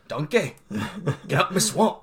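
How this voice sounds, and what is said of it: Shrek impression accent. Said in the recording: “they only use the Shrek accent.”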